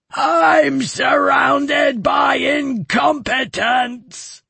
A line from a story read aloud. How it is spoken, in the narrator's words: roared the giant